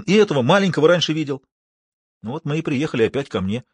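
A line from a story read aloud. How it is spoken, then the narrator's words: Angry exclamation. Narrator (Russian): В сердцах воскликнул Тимохин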